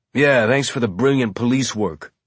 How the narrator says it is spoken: Amos said with a snort

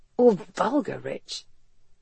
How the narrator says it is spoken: he whispered near her ear

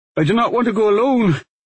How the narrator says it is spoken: he said, suddenly gasping for breath

